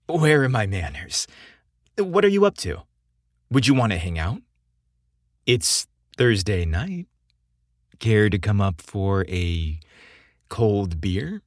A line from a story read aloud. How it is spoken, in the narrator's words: His voice was an invitation to more than just a drink